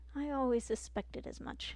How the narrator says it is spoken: Marilyn Granger muttered

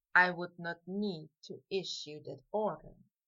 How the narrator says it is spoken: Draco mumbled back

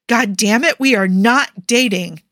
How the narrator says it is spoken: John said angrily

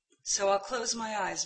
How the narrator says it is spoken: murmured John

